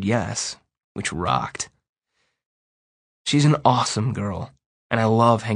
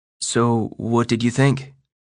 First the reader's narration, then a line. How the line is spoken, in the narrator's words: She asks me nervously